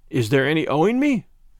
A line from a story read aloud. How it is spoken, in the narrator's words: He asked anxiously